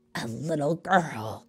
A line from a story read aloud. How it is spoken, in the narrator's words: sneered Abracadabra